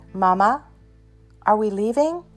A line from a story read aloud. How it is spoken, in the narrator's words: Jimmy asked